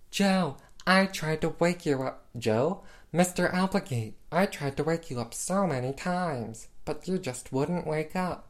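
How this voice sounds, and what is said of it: Croaky Kermit-like imitation of another's voice. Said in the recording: “my impression of Gwen Verdon as Lola's voice. Sounds a bit like a messed up Kermit”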